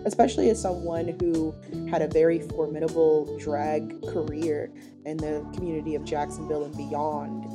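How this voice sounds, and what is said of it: Voice sounds a little off. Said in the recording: “my voice sounds a little funny, it's because I recently had COVID, so I'm still kind of getting over the weird cough part of it”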